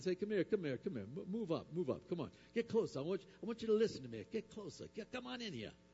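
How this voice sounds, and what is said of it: Put-on New York accent. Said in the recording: “maybe from New York ... New York accent ... New York or Boston”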